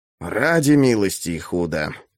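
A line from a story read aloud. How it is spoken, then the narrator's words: Foreigner grumbling. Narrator (Russian): буркнул иноземец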